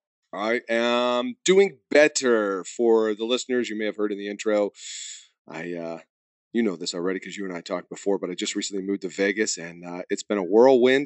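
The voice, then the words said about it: Voice sounds sick with a cold. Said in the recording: “I'm just now getting over this tough cold. So if you hear it in my voice”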